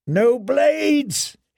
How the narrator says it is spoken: he screamed

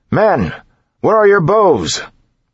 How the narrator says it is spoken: His voice, however, was lost in the shouting

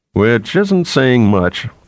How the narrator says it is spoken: Theremin put in, laughing

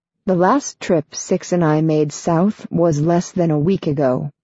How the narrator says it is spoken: Marina says, her voice measured

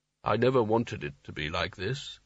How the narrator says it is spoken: he said softly

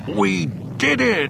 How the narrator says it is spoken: he yelled triumphantly

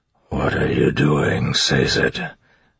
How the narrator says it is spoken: Marsh whispered

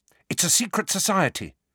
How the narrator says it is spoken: said Hermione quickly

